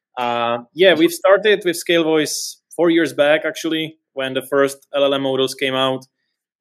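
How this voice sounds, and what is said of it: European accent. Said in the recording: “Sorry for my weird accent. I'm from Europe”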